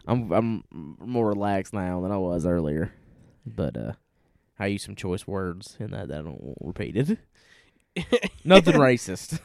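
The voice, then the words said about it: Southern US accent. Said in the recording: “because of my accent and where we're from ... We may be from the South”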